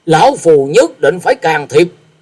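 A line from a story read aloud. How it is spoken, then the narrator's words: Angry snort. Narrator (Vietnamese): Như Ý Tẩu Đồng Phương Húc tức giận hừ lên một tiếng và nói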